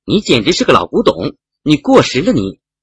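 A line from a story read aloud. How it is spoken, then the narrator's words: Shouting. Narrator (Chinese): 喊完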